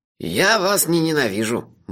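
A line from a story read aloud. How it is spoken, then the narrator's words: Grumbling. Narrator (Russian): буркнул тот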